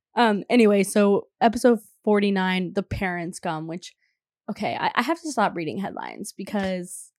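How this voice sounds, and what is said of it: Raspy, sick-sounding voice. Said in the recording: “my voice is so crazy ... It's the sickness ... Sorry. I don't sound as ... it's giving like Kristen Cavallari. It's a little bit raspy.”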